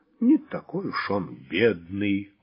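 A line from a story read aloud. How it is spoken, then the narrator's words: Grumbled. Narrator (Russian): буркнул Владимир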